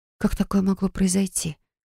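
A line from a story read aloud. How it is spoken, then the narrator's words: Whisper. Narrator (Russian): прошептала я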